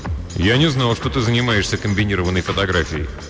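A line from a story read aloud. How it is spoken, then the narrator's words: Calm. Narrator (Russian): Хейнс спокойно произнес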